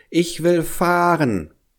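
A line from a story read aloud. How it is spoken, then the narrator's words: Child calling out. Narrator (German): rief der kleine Hävelmann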